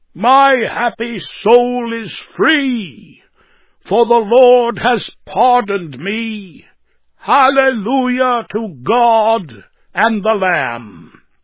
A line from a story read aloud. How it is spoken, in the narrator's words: So great was his rapture that, with a thundering voice, he shouted out with all his might